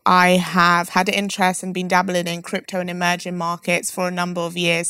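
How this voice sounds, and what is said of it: London English accent. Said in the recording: “My accent may give it away. I'm from London”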